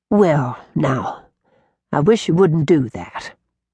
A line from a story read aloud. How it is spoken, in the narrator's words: she said quietly